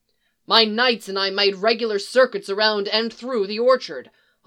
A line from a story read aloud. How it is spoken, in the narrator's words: Hunter snarls